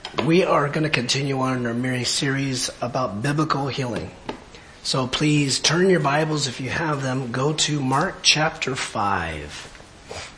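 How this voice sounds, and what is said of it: Quiet, low-volume voice. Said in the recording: “my voice is a little low today. ... It's low in volume, lower. ... I'm like quiet now.”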